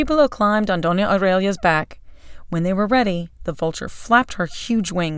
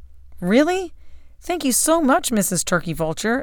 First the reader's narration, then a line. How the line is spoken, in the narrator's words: exclaimed Chipolo